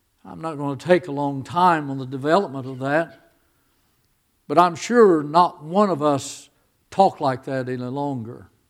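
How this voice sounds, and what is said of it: Southern American accent. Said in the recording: “I must have an accent. They're always thinking I'm from Texas or Arkansas or Georgia.”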